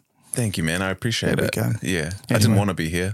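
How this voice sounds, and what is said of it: Tired, low-energy voice. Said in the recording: “you sound tired.”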